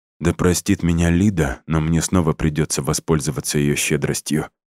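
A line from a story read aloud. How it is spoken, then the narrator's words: Mumble. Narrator (Russian): пробормотал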